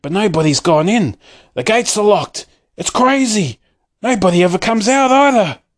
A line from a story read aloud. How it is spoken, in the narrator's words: the people shouted